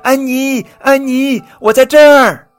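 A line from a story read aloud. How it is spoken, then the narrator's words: Happy shouting. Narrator (Chinese): 瑞奇高兴的喊着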